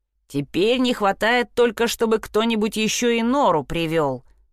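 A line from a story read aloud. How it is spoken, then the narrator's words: Grumbling. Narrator (Russian): пробурчала Шпрота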